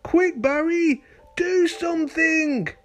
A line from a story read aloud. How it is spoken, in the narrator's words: cried all the other fish